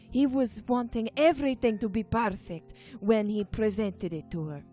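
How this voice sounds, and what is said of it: Put-on Italian-like European accent. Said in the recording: “turning uh, Italian for a second ... Generalized European accent.”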